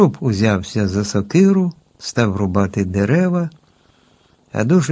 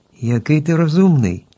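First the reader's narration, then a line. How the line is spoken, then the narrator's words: Joyful group exclamation. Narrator (Ukrainian): радо вигукнули всі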